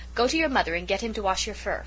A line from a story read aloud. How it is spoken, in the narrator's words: told Goldie sternly